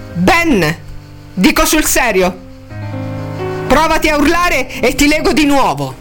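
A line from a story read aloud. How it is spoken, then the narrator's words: Shouting. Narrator (Italian): gridò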